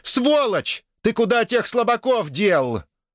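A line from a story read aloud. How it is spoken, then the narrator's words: Shouted out. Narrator (Russian): Грета выкрикнула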